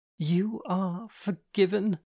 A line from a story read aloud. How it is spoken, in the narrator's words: giggled